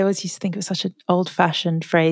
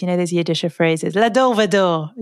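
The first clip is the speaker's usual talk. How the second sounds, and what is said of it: Put-on Yiddish accent. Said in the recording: “You say it in a Yiddish accent.”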